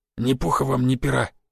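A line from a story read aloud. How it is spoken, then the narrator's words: Quiet wish. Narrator (Russian): тихо пожелал Жига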